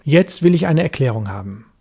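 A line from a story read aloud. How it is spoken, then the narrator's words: Sharp. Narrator (German): sagte ich scharf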